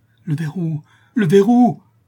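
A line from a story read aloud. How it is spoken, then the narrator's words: Exclaiming. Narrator (French): s'écria Jacques Ferrand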